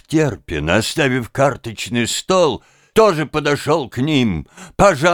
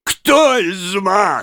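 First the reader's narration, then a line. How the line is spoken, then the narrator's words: Ecstatic shout, professor. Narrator (Russian): снова закричал в полном восторге профессор эстетики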